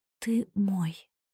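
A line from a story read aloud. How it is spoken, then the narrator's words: Quiet, breaking voice. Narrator (Russian): произнесла я тихо срывающимся голосом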